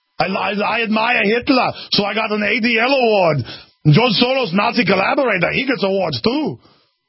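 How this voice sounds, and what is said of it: Arnold Schwarzenegger impression. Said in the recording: “I'm doing an imitation of Schwarzenegger.”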